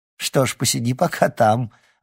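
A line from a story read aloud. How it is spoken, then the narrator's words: Laughing. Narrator (Russian): рассмеялась Церцея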